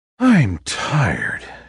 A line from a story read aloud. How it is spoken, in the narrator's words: she sighed